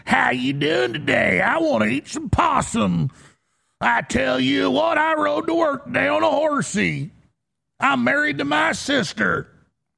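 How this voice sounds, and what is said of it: Mock exaggerated Texan accent. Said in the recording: “speak to, let's say, Texas. And it's just a crowd of Texans. And somebody that normally has a New York accent gets up and says”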